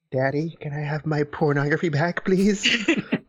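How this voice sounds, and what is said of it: Creepy voice. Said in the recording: “It's a creepy voice. ... It is.”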